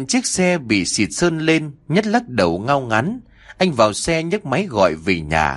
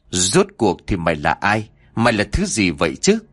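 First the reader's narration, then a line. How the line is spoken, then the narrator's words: Muttering. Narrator (Vietnamese): Miệng của anh liền lẩm bẩm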